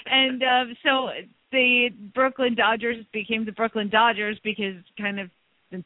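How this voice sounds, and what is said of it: Usual voice. Nothing is said of it.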